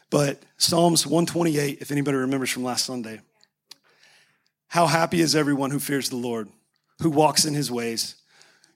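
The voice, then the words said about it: Hoarse, strained fading voice. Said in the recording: “I'm losing my voice,”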